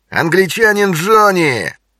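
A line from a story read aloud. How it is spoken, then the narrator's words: Guffawing. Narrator (Russian): Краснолицый захохотал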